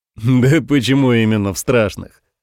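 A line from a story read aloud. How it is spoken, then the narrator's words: Pleased laughter. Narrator (Russian): Рассмеялся страшно довольный ее реакцией Самуил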